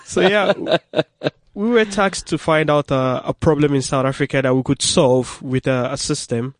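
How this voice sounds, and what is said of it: Speaks with an accent. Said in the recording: “you can hear he's got an accent”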